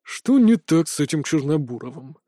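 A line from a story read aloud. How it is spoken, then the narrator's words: Man grumbling. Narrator (Russian): пробурчал усатый следователь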